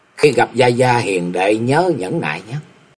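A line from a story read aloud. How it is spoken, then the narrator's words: Soft whispered advice. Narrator (Vietnamese): ghé vào tai của Lý Mộng rồi khẽ dặn dò nói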